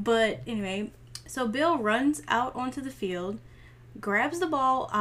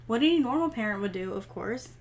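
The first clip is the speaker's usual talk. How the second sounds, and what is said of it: Sarcastic tone. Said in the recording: “that was sarcasm ... I'm rolling my eyes”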